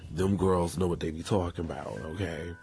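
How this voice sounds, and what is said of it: Fake New York accent. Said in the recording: “In my fake New York accent.”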